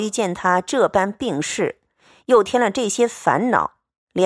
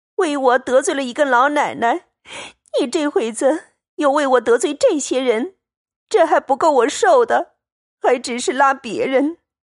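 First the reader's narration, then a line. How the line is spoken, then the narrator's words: Crying. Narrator (Chinese): 袭人一面哭，……道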